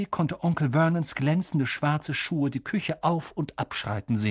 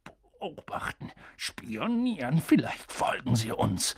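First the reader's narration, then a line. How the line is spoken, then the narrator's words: Confused mutter. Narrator (German): murmelte Onkel Vernon verwirrt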